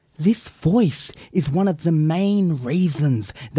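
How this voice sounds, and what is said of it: Usual voice. Nothing is said of it.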